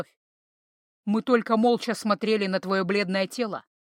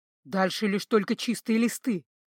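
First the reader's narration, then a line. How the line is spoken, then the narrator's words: Hoarse. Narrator (Russian): хрипло прозвучал его голос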